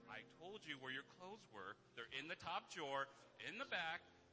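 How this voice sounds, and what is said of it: Reminding parental dad voice. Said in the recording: “I'm putting on my dad voice right now. I'm like, where I'm reminding my kids.”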